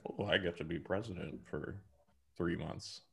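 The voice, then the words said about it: Monotone Mike Pence impression. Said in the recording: “my Mike Pence impression... the monotone”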